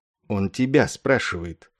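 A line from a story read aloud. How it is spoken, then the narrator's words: Whisper. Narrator (Russian): шепнул сзади полковнику Кошкарту подполковник Корн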